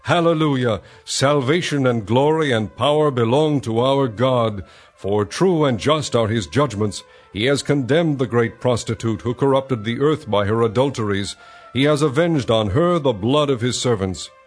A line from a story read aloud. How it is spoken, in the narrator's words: what sounded like the roar of a great multitude in heaven shouting